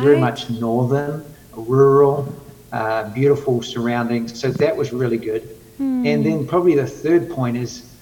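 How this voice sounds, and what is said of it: New Zealand accent. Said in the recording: “New Zealand's a Western culture ... The accent, people don't understand me.”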